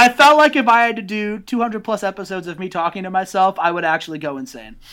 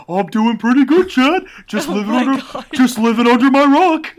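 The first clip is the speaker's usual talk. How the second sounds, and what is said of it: Cartoon starfish character voice. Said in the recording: “I do a really good Patrick Starr impression”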